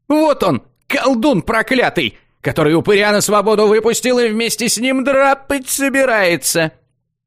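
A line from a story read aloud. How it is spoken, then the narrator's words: Yelling from a distance. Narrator (Russian): Завопил он с безопасного расстояния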